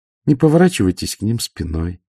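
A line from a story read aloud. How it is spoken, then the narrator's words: Calm. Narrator (Russian): спокойно сказала Ангва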